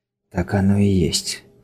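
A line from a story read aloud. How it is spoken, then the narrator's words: Whispered. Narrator (Russian): прошептал Синклер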